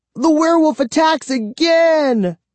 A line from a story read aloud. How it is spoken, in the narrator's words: I shouted